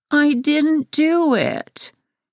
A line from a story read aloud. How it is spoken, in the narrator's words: whined